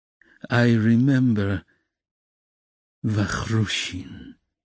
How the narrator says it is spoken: Raskolnikov said dreamily

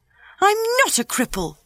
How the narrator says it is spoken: he cried out furiously

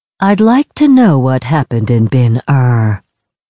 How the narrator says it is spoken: he said in a pleasant, melodic voice

